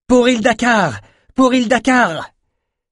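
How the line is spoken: Roared in unison. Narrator (French): Mara rugit à l'unisson

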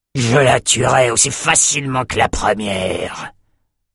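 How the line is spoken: Growled. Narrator (French): grogna-t-il

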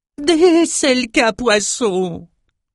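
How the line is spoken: Squeaked, fascinated. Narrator (French): couina Crayeux, fasciné

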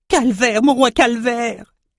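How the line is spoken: Shouting. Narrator (French): cria Crieux

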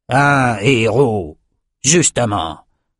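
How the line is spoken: Grumbling. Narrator (French): grogna Cyrus

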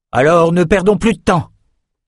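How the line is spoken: Exclaimed. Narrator (French): s'écria Rennes

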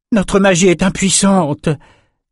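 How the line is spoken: Frustrated moan. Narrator (French): gémit Elsa après un énième sort direct sans effet

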